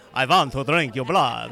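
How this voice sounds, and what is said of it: Put-on Transylvanian vampire accent. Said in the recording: “whip out your Transylvania kind of accent sound”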